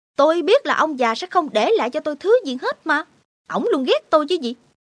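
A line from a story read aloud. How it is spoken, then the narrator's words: Angry, near shouting. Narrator (Vietnamese): Jason đập tay xuống bàn và nói như quát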